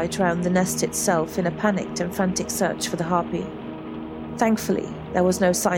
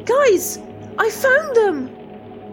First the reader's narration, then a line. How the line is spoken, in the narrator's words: Isabel shouted into the radio